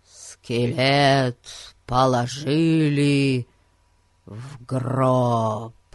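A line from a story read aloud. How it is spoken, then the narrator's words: Gloomy sepulchral tone. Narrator (Russian): проговорил Ларри мрачным, замогильным тоном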